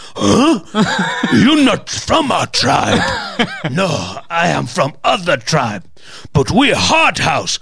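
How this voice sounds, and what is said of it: Caveman-style prehistoric man voice. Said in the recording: “Was that your impression of prehistoric ... man?”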